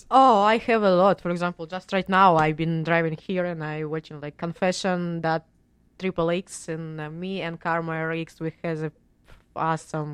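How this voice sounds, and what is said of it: Russian accent. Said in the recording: “My Russian accent coming.”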